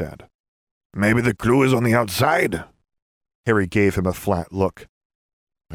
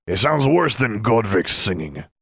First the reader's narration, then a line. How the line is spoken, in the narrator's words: Salazar grumbled